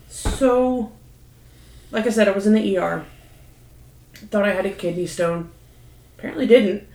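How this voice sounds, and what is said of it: Tearful, choked-up voice after crying. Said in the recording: “I sound like a blubbering mess a little bit, like I've been crying”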